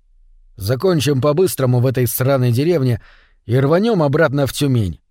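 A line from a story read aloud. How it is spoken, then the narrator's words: Plain. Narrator (Russian): ответил я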